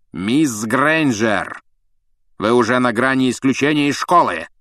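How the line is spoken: Stern bark. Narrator (Russian): рявкнул Снег

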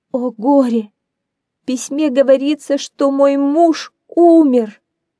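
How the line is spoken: Sobbing woman. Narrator (Russian): Рыдая, женщина

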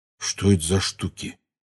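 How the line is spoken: Whisper. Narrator (Russian): прошептал Рон

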